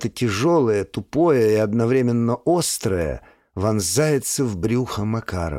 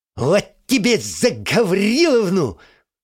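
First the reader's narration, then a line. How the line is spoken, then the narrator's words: Hoarse wheeze, familiar voice. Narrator (Russian): выхрипывает знакомый голос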